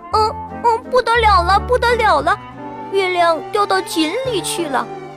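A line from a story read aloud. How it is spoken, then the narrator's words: Sudden shout. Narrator (Chinese): 它忽然大叫起来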